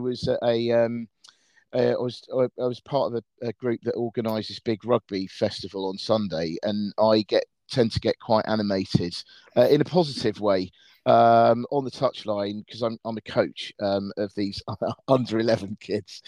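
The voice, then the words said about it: Slightly croaky voice. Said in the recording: “My voice is still a bit croaky because I was shouting a lot on the weekend.”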